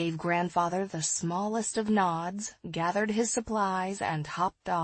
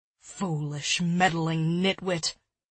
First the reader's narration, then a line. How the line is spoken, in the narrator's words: grumbled Grandfather